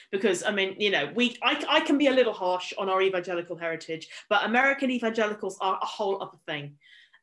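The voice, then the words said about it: British accent. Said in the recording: “that British accent physically, our British accents”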